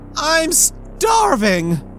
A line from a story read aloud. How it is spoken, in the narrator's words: he yelled